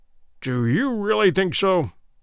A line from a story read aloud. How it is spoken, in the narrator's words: said Good, gloomily